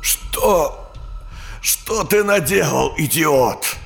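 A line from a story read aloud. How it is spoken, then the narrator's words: Shouting. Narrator (Russian): Хеймс кричал это мутанту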